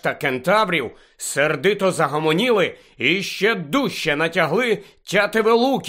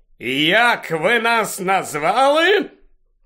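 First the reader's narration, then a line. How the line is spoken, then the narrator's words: Wild centaur shouting. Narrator (Ukrainian): крикнув дикий на вигляд вороний кентавр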